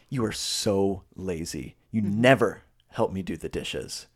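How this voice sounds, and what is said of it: Contemptuous, disgusted tone. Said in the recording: “Contempt, it could be the same words, but it's said with a tone of like”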